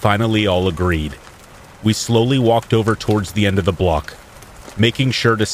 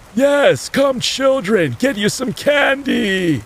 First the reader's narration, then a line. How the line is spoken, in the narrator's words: bellowed